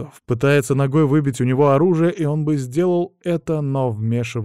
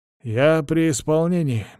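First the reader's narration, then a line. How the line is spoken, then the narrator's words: Mechanical repetitive voice. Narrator (Russian): механическим голосом твердит Поларотов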